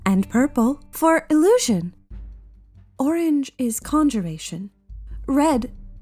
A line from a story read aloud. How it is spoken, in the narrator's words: she smirks playfully